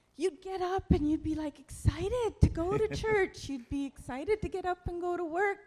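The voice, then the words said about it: Put-on Irish accent. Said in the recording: “I'm putting on an Irish accent, and I don't know why.”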